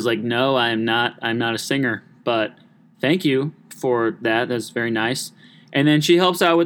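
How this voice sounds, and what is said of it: Usual voice. Nothing is said of it.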